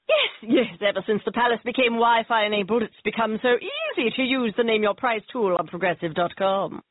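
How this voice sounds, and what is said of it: Posh royal-style character voice. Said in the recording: “my impression of a tech-savvy royal family”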